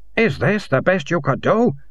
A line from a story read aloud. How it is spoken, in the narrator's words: he hissed